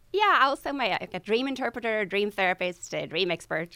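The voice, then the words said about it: Swedish accent with mixed influences. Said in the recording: “you are originally from Sweden... by way of Australia and England... my accent is a little broken”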